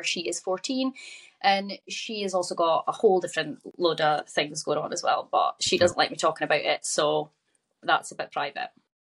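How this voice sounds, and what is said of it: Scottish accent. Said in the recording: “the accent, ... is from Scotland ... I'm from Aberdeen.”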